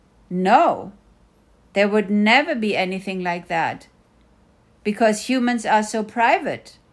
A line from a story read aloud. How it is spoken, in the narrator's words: smiled and said firmly